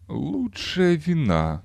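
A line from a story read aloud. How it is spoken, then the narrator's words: Mumbling fat man. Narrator (Russian): промямлил толстяк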